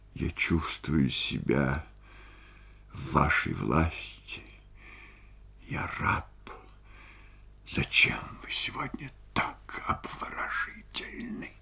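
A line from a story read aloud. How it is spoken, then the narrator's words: Sad. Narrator (Russian): Рябовский сказал печально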